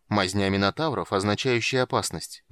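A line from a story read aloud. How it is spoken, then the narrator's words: Gloomy. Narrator (Russian): мрачно сказал Полин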